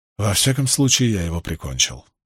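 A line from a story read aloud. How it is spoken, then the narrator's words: Mutter. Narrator (Russian): пробормотал Перин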